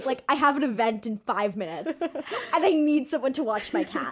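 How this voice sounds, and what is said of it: Imitated thick European accent. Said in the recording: “he has a very thick European accent,”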